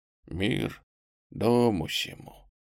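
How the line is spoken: Soft old monk. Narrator (Russian): фигура старика-монаха мягко сказала всем нам

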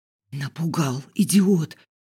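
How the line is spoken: Frightened squealing whisper. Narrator (Russian): взвизгнула шепотом

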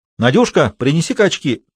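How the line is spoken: Eagerly curious shout. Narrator (Russian): крикнул Исаев с жадным любопытством

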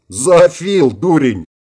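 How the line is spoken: Loud laughter. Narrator (Russian): расхохотался неугомонный Рикки

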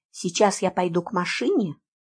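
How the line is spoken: Whisper. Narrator (Russian): шепнула я

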